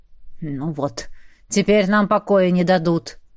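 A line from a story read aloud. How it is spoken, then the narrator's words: Grumbling. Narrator (Russian): проворчал Этьен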